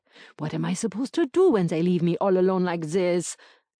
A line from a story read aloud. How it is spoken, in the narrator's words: grumbles